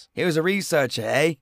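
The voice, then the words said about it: Weak put-on Canadian accent. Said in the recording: “That's all I got from my Canadian accent. I should work on it.”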